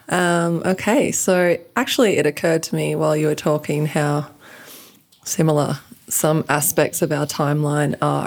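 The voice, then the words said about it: Australian accent. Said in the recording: “I'm from Australia. I have a funny accent. ... You sound like you're from London. ... you sound like you're from Australia.”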